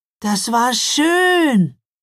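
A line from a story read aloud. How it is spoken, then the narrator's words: Call. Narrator (German): rief Mila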